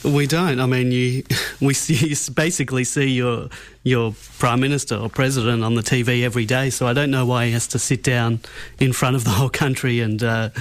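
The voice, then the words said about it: Australian accent. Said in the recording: “the Australian accent ... There's just something about that accent”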